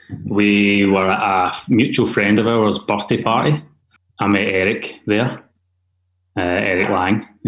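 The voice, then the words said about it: Scottish accent. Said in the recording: “he had my Scottish accent”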